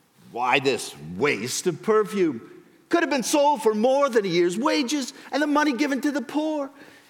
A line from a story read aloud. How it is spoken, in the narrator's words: Some of those who were present were saying indignantly to one another